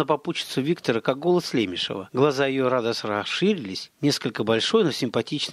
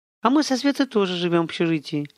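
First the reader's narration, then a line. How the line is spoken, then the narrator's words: Honeyed singing voice. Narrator (Russian): медовым голосом джазовой солистки пропела она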